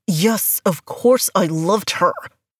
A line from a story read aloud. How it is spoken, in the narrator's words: growl